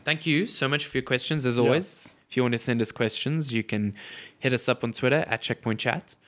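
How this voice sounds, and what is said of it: Nasal, congested voice. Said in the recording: “I feel like I sound really nasally because my nose is super blocked ... You sound like me when I was sick”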